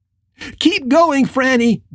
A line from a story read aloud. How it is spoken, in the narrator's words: screamed at her, hoping that she could just push past the man and keep running